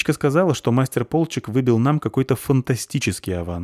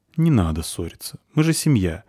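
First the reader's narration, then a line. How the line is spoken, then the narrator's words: Gentle reproach. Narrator (Russian): мягко укорил всех Кифри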